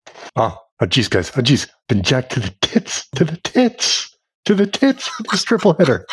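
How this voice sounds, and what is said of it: Imitates another person's voice. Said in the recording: “your Spence impression”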